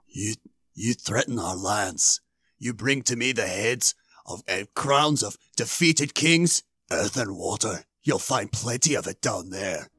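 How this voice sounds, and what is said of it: Airy, weird Xerxes impression. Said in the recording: “save Xerxes for last ... he does this weird, like, airy voice. I'm going to try and do it ... There's a lot of character in it”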